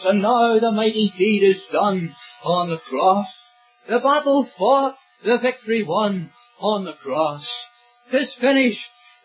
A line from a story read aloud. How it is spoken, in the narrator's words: the conqueror cried